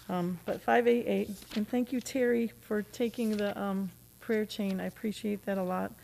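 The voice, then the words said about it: Hoarse voice. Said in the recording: “Apologies for my voice. ... I'm hoarse still from shouting.”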